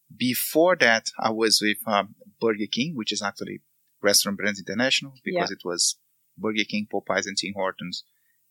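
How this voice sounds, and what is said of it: Brazilian accent. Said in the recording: “I'm Brazilian, that's why I have this funny accent.”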